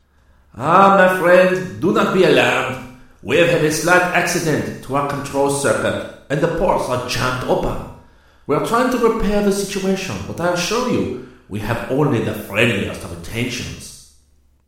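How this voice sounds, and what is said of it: Suave voice, slight French accent. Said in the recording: “The suave voice with its hint of French accent”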